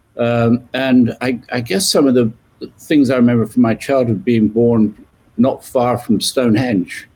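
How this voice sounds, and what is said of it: British English accent. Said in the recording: “you can tell from my accent, I was born in the UK, just west of London.”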